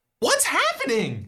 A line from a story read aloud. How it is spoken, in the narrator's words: You exclaim